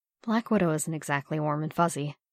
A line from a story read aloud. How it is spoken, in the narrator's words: Natasha leaned in and murmured softly